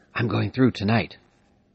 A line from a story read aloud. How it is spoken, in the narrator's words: a man whispered